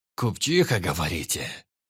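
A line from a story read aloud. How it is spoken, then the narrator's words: Thoughtful. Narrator (Russian): Задумчиво проговорил он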